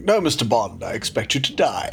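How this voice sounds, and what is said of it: Blofeld villain impression. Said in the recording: “a guy called Ernst Stavro Blofeld going”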